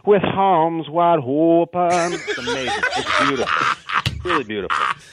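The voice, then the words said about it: Imitates another person's singing voice. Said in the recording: “That was a great impression.”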